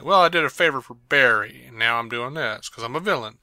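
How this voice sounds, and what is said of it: Poor impression of a TV character. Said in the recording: “my terrible Snart impersonation”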